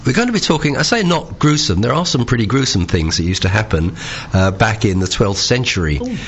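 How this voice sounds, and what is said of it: Strained voice from a cold. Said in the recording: “I must apologise for my voice. I've had a cold and my voice is going a bit strange today”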